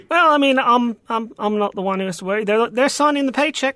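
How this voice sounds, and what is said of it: New Zealand accent. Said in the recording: “Obviously, you're not from around here. What is that, Ukrainian accent? What is that? Norwegian? ... New Zealand, if you want to get specific.”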